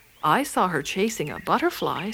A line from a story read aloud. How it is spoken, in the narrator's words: said Whiskers